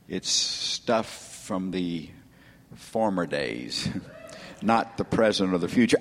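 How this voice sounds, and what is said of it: Southern US accent. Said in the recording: “my accent, I'm not from the north. ... Some of you won't understand my dialect. It's southern.”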